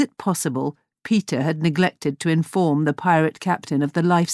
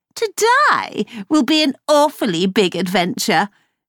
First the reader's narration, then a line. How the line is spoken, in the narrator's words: sneered